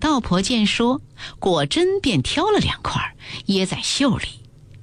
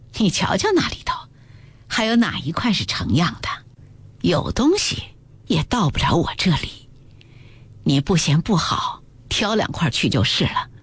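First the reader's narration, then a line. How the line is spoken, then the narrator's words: Sighing. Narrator (Chinese): 赵姨娘叹口气道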